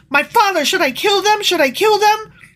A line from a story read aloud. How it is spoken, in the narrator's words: the king of Israel he shouted to Elijah